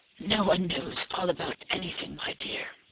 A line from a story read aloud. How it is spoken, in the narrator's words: The old woman chuckled softly, as if the answer amused her, and replied